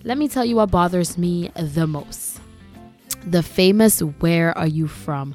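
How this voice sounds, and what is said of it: Caribbean Grenadian accent. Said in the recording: “I still have an accent because I am from Grenada ... having a Caribbean accent”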